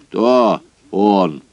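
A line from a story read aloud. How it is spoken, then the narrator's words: Stern question. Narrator (Russian): спросил он строго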